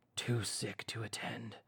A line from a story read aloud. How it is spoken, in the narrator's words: he growled